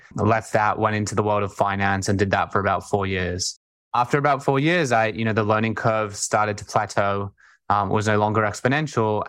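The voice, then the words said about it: Australian accent. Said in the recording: “I grew up in Sydney, Australia, hence the accent.”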